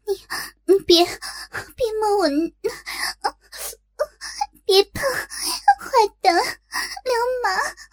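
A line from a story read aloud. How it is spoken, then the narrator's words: Sweet flirtatious laughter. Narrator (Chinese): 这甜美的笑声，听起来倒像是在和男人调情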